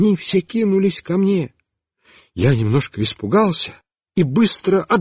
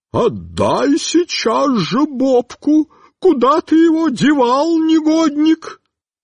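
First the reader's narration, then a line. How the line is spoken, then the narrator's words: Inhuman woman's scream. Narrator (Russian): Тетенька с голой спиной стала кричать нечеловеческим голосом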